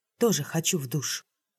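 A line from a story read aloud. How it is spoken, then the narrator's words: Quiet. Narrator (Russian): сказала тихо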